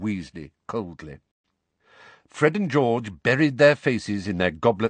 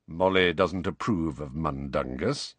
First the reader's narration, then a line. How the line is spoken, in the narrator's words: said Sirius in an undertone